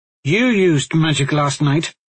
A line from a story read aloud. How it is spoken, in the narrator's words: Aulën pointed out, rather harshly